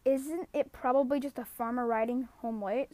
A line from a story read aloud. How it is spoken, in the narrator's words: said Shasta with a yawn